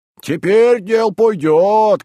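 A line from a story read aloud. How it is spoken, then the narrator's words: Men shouting. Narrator (Russian): кричали мужики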